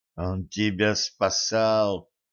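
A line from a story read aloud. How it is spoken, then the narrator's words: Through gritted teeth. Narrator (Russian): процедила Женька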